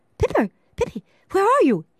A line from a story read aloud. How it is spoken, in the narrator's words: cried, worried